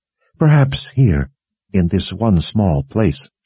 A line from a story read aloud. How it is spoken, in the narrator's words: she said